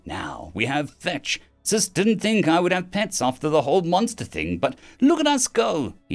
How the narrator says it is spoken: he said brightly

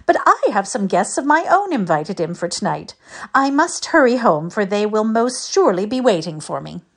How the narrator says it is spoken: laughed Ida

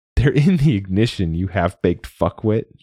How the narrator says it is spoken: said, laughing

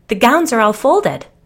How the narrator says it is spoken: the other declared cheerfully

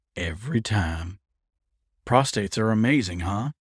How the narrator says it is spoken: Colton groaned in agreement

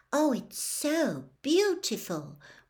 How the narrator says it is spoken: whispered Lavender Brown

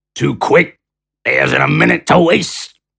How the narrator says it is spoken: Shea retorted in his gravelly, underused voice

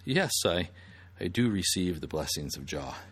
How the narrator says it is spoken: gently responded

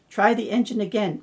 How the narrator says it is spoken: Mike said

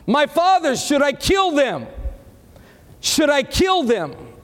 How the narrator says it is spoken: the king of Israel shouted to Elijah

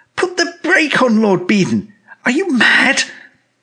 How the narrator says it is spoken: cried

